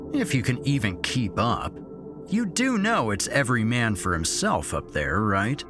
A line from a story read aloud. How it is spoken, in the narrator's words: Derek had said, sneeringly